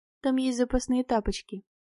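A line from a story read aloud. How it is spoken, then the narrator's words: Quiet speech. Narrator (Russian): я тихо сказала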